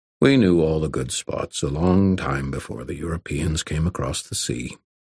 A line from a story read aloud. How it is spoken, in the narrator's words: River Shoulders said calmly